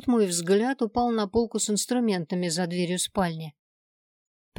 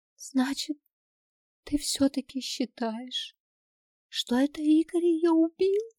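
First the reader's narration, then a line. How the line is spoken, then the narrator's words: Tearful near-whisper. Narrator (Russian): Почти шепотом, с глазами полными слез, спросила Нина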